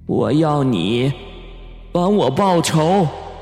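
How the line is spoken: Slow sighing. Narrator (Chinese): 那人影悠悠的叹息了一声，说

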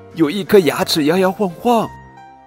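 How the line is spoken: Screaming. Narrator (Chinese): 小公主尖叫

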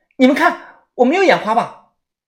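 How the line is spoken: Loud. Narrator (Chinese): 小轩大声的说道

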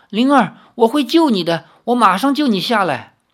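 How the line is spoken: Loud. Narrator (Chinese): 李逍遥恍若未闻，大声说

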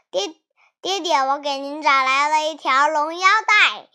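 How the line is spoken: Cheerful, smiling. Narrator (Chinese): 哪吒 还笑盈盈的说

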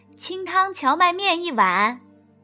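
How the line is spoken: Calling out. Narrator (Chinese): 一面向柜台里面喊着

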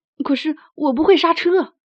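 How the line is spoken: Anxious loud shout. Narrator (Chinese): 普老大急得大喊

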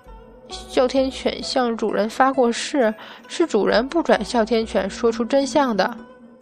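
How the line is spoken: Quiet protest. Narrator (Chinese): 小声分辨道

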